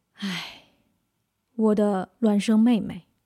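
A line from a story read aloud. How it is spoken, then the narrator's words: Long sigh. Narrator (Chinese): 那人长叹一声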